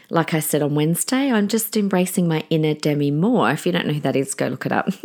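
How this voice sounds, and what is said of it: Raspy, hoarse voice. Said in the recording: “my voice was a bit funny. So please forgive me if it's a bit raspy and funny again today”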